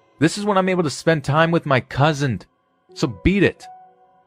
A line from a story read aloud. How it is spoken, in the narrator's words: my cousin even shouted at the ghost